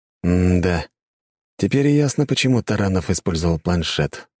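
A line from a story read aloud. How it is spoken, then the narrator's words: Sighing. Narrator (Russian): вздохнул я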